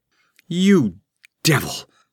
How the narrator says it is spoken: cried Taramis

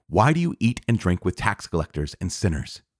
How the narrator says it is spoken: the Pharisees and their scribes murmured against his disciples, saying

